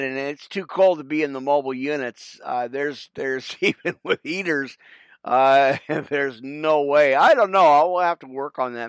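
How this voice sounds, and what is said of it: Hoarse, partly lost voice. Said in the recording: “I have a little bit of a sore throat again. And again, I kind of lost my voice”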